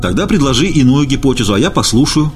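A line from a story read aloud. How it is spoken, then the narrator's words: Angry objection. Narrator (Russian): возразил я сердито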